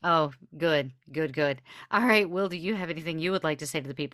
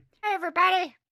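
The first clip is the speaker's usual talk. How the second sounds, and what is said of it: Imitates another person's voice. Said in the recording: “Is that the Travis impression? ... Yeah, that was remarkable. I thought he was here.”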